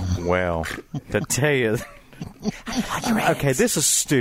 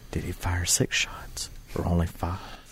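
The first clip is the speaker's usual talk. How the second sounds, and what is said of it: Whispering. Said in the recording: “whispering? ... It's not pillow talk, dude.”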